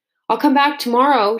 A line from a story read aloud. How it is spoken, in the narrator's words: shouted Bruno to the departing boy